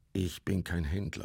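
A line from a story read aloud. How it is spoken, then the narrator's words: Plain. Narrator (German): sagte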